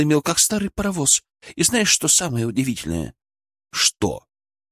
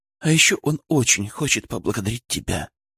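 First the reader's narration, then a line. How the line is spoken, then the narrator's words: Muffled whisper. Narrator (Russian): прошептала она мне в плечо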